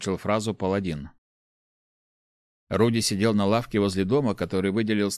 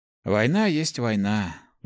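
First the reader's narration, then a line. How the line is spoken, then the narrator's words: Sighing. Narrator (Russian): вздохнул паладин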